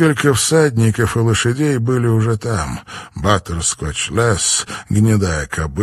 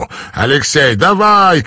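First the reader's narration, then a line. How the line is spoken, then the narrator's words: Shouting. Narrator (Russian): крикнул стартер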